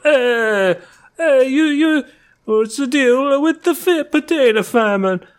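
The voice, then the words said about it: Imitates another person's voice, Italian-style. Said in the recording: “my impersonation of Italian Seinfeld ... That was really good.”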